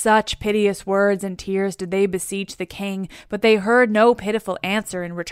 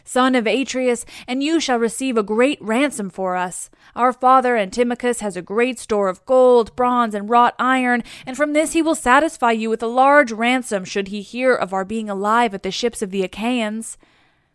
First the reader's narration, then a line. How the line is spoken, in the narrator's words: they cried